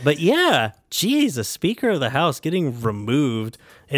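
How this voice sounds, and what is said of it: Usual voice. Nothing is said of it.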